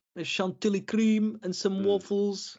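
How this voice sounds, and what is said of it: Put-on Dutch-sounding accent. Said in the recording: “Is that your Walloon accent? ... No, that was a little bit Dutch, really, wasn't it? ... It was a bit Dutch.”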